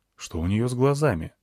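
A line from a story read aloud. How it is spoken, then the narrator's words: Quiet question. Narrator (Russian): тихо спросил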